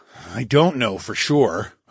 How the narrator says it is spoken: I grunted

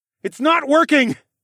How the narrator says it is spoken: I yelled

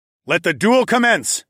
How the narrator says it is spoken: I yelled out

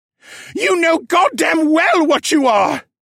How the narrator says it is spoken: Tarak shrieked

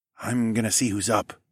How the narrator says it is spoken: I whispered

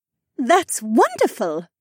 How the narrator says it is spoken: Shay said with her megawatt smile

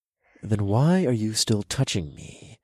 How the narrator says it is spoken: I muttered through gritted teeth

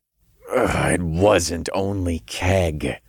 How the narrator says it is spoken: I growled

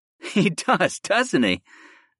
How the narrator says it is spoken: I chuckled

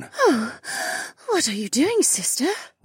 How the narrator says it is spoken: Remna gasped

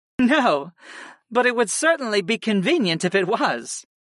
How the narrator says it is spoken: Sarah chuckled

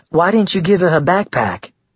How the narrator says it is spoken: Amy asked in an innocent tone

